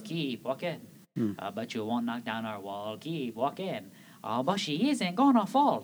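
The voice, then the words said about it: Mock French accent, singing. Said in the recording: “I can tell by the accent. French, the two little French peas.”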